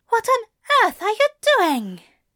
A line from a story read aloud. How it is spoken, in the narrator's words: Aziraphale gasped in frustration